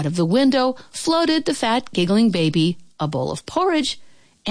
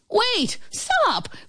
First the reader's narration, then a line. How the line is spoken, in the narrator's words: cried the baker woman's husband